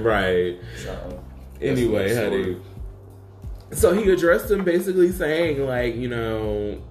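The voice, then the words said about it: New York accent. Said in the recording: “this fake-ass New York accent when I talk”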